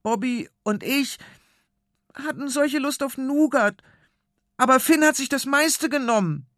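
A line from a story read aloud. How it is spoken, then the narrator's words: Squeaky voice. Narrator (German): piepst seine Stimme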